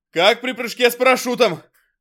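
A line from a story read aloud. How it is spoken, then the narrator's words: Loud, to no one. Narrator (Russian): громко проговорил сержант Клюев, никому конкретно не обращаясь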